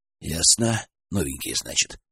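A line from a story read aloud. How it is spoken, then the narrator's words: Sighing. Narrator (Russian): вздохнул Николай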